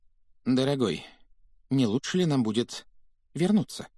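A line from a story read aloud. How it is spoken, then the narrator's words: Timid question. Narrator (Russian): Робко поинтересовалась тетя Петунья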